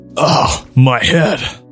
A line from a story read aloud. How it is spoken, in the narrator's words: Tahu grunted